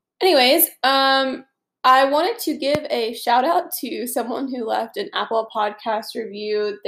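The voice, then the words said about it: Nasal, congested voice. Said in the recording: “please ignore my nasally voice”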